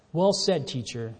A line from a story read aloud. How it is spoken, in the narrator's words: the man replied